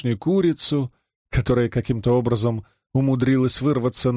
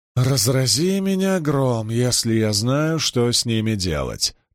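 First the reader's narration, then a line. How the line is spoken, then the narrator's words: Grumbling. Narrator (Russian): проворчала Бергитта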